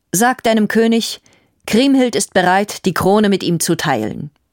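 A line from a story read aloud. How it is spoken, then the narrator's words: Firm tone. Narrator (German): sprach sie mit festem Ton zu Rüdiger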